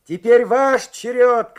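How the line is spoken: Shout. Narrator (Russian): крикнул он

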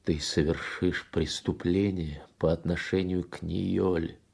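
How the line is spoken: Voice breaking. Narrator (Russian): дрогнувшим голосом сказал он

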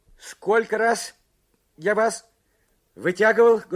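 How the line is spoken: Loud question. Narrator (Russian): громко спросил Карсон

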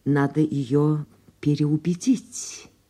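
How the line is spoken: Plain. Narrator (Russian): сказал он

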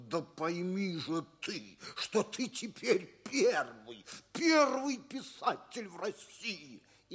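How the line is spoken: Insistent, through gritted teeth. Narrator (Russian): настойчиво, даже сквозь зубы, говорит ему

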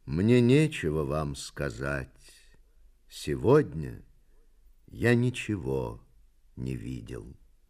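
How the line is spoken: Poet's sad reply. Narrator (Russian): поэт печально ответил

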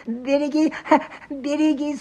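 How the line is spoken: Strained babble, dying man. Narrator (Russian): С усилием, словно косноязычный, залепетал замиравший охотник

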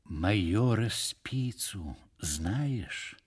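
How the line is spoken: Intimate tone. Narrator (Russian): продолжал он уже интимным тоном

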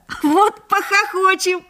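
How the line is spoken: Laughing. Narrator (Russian): засмеялся Лёшка Хвальба

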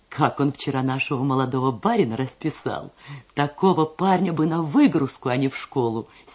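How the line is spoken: Laughing. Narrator (Russian): смеясь говорила она

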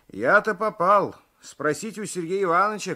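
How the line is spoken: Shouting. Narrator (Russian): кричал Алексеев

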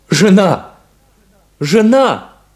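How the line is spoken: Shouted. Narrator (Russian): крикнул Шарль

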